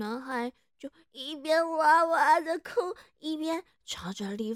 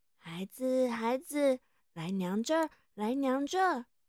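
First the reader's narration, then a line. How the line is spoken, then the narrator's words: Gentle voice. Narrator (Chinese): 李夫人温柔的说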